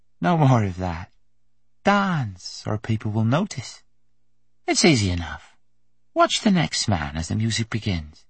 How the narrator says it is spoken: She laughed softly and said in English

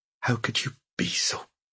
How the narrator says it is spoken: she whispered, not knowing how to finish the question

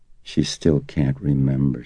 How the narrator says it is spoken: she said gently

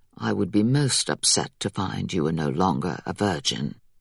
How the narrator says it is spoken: said in a low voice

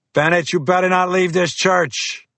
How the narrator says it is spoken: Fiore yell

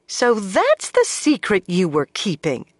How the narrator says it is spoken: she exclaimed

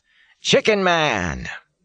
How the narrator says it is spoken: John howls

